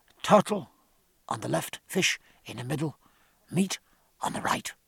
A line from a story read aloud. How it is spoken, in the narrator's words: whispered Tapia